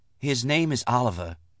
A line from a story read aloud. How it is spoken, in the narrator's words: Ledare whispered